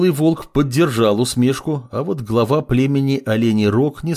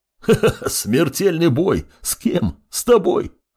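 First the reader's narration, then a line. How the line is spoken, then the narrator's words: Loud laughter. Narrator (Russian): расхохотался медведь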